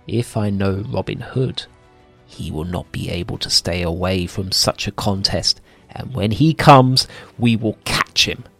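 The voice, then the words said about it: Low-voiced storybook villain line. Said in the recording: “The Sheriff then said in a low voice,”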